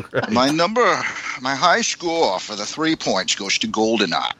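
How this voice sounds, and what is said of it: Sean Connery impression. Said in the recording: “I've decided to do my points in my Sean Connery voice.”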